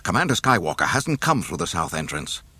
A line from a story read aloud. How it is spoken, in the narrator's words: the man said frantically